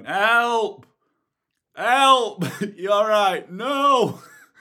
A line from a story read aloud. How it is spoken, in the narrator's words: Me there with all the gear and no idea, shouting